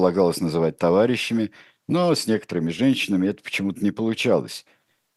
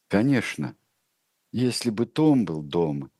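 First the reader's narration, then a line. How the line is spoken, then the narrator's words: Uncertain. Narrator (Russian): неуверенно сказала миссис Парсонс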